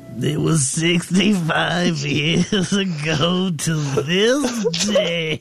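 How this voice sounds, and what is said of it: Weird despicable character voice. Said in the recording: “That was quite the voice you put on there, man. That was the despicable character you were playing. ... a weird voice ... a weirdo voice”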